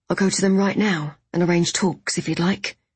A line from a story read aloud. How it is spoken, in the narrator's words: Jago returned evenly